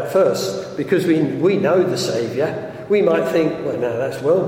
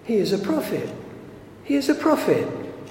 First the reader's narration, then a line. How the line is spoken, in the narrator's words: he says calmly